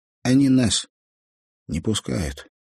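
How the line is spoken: Calm. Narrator (Russian): сказал спокойно Казик

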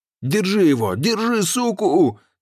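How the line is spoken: Yelled. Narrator (Russian): заорал Сергей

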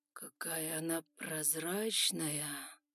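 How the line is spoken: Drawling. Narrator (Russian): протянул

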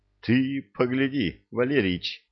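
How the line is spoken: Forced out with effort. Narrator (Russian): наконец выдавил из себя Шпындрюк

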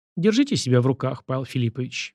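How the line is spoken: Gentle request. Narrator (Russian): мягко попросила она

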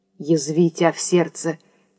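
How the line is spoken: Quiet. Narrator (Russian): тихо сказал Евграф

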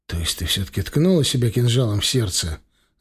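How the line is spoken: Young man's hopeless groan. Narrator (Russian): обреченно простонал парень

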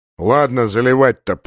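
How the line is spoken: Grumbled. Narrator (Russian): пробурчал полубой

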